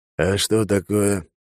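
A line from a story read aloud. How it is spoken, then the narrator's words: Lazy, idle question. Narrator (Russian): лениво поинтересовался Алекс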